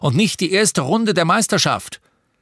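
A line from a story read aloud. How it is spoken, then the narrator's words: Roared from another room. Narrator (German): brüllte Papa aus dem Badezimmer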